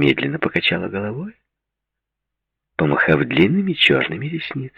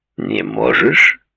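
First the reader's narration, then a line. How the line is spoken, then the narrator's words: Hoarse voice. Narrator (Russian): хрипло произнес Конрад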